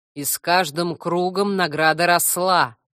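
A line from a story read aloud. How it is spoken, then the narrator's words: Deep booming voice. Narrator (Russian): прогудел могучий пень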